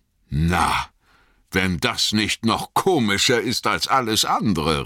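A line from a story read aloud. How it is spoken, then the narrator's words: Called out. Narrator (German): rief er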